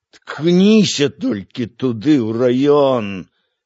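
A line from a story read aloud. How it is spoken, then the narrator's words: Hoarse wheeze. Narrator (Russian): сипел Евхим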